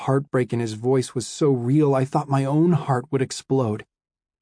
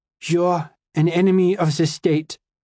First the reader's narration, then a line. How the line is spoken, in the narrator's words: I told Simon, my voice shaky